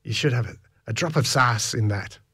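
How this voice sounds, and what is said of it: Bad put-on Irish accent. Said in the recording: “in my terrible Irish accent. And, or was it Mexican?”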